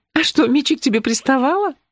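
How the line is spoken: Laughing. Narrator (Russian): рассмеялась Юли

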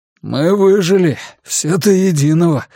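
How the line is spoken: Hoarse announcement. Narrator (Russian): хрипло объявил он

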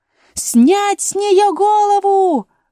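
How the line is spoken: Shrill shout. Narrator (Russian): пронзительно крикнула королева

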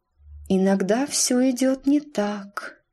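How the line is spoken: Dreamy voice. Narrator (Russian): проговорила она мечтательным голосом

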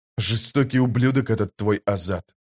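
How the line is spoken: Muttering. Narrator (Russian): пробормотал Паран

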